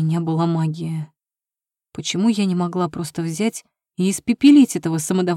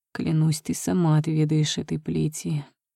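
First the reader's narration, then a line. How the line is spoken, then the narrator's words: Quiet man's promise. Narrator (Russian): тихо пообещал мой жених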